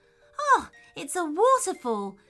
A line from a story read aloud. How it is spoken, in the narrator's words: exclaimed Theodore